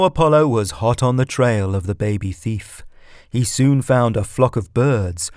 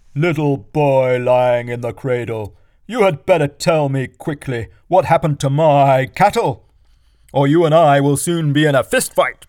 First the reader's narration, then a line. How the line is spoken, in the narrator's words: He called out